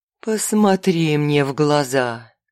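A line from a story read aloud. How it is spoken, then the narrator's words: Purring. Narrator (Russian): мурлыкнула Ноктурна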